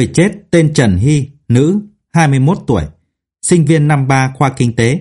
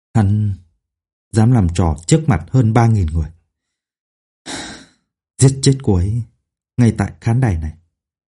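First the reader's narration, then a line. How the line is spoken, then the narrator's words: Whisper. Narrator (Vietnamese): ông thì thào nói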